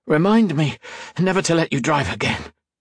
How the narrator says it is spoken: said, doubled over and gasping

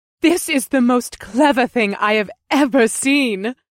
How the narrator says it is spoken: she giggled

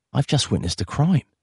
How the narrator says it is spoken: Peter murmured into Beatrice's hair

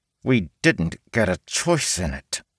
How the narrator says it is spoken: The orc woman, through clenched teeth, answered

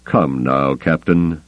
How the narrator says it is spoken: Thrawn admonished him calmly

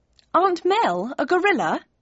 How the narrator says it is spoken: I laughed

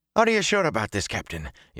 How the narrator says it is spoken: Yaren asked

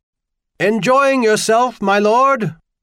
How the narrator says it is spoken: Hollis Tanner had to practically bellow in Corus's ear for the question to be heard over the slithering roar of the runners

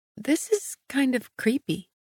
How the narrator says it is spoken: I murmured

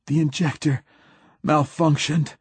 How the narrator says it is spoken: gasped Hoyt

